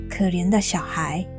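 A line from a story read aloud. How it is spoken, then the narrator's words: Murmuring. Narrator (Chinese): 喃喃的说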